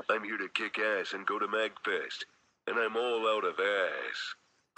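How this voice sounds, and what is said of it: Imitates Duke Nukem's voice. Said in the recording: “He's the voice of Duke Nukem?”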